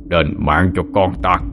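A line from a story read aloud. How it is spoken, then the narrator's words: Mocking laughter. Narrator (Vietnamese): Đế quỷ cười lên mỉa mai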